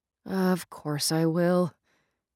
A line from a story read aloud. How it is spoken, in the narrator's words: she said with a sigh